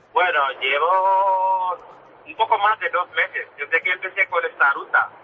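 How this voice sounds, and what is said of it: Senegalese accent in Spanish. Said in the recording (Spanish): “tu acento no es de la zona de Pamplona ... bastante lejos, de África ... De Senegal”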